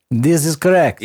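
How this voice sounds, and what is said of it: Put-on country accent. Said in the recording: “In that accent, too. ... we're in country.”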